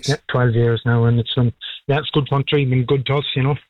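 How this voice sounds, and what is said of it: Non-local accent. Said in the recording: “I take from the accent that you are a wonderful, wonderful arrival here.”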